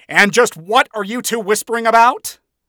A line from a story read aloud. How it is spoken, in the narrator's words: the television demon yelled